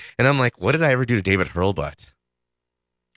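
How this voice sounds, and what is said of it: Usual voice. Nothing is said of it.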